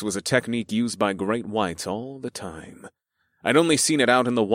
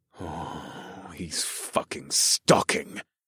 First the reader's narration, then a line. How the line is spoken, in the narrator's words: growled